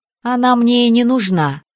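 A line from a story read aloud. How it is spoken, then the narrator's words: Snorting. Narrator (Russian): фыркнула я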